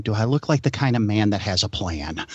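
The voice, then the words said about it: Imitates another person's voice. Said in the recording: “pretty good little impression you did there”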